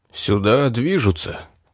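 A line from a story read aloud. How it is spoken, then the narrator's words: Muttered. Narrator (Russian): пробормотал Стоун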